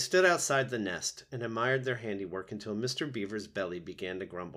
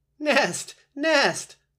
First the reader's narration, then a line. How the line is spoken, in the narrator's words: laughed Brightbill